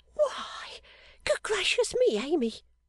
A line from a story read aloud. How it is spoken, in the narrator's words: cried that young lady, starting